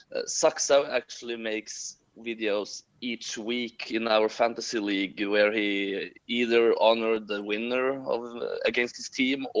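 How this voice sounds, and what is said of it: Choppy accent. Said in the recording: “my choppy accent”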